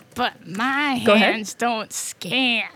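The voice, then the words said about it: Attempted Rocket Raccoon character voice. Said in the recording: “try the voice. ... Rocket. ... Raccoon. ... the range is right, and just the timbre, you got to get more of that.”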